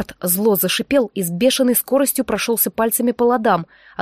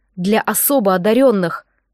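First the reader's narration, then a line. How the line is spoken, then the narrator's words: Angry over frantic guitar. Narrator (Russian): зло проговорил Джек, продолжая шпарить на гитаре что-то безумное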